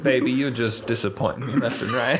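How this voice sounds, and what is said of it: Sad Southern mom voice. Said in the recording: “Sad Southern mom.”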